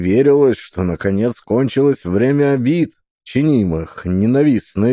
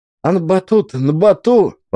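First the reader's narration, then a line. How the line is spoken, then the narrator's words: Frightened exclaiming. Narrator (Russian): испуганно восклицал Макарка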